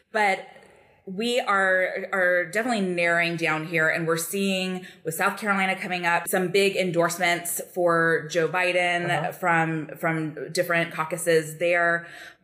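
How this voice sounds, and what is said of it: Slight Southern US accent. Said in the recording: “South Carolina, which is where I grew up. So if you hear a little bit of an accent, that's what it is. Tempered with a couple of years in Boston and then over a decade here in DC.”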